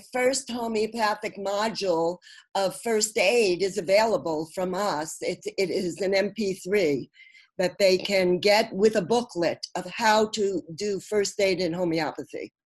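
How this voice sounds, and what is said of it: Brooklyn accent. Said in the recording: “all in my Brooklyn accent ... at least you're authentic”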